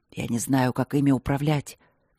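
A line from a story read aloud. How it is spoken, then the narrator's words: Quiet confession. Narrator (Russian): тихо признался Трот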